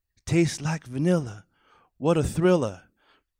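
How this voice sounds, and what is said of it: Muhammad Ali impression. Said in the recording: “my Muhammad Ali impression”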